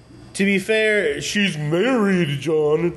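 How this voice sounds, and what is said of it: Derpy voice going up and down. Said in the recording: “That was my impression of you ... derp a derp a do and go up and down like that”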